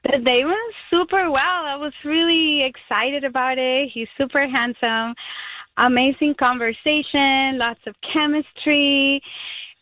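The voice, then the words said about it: Puerto Rican accent. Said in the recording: “Me encanta su acento. I love your accent. ... I'm from Puerto Rico.”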